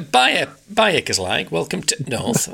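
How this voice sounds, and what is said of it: Put-on Yorkshire accent. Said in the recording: “That's my Yorkshire accent.”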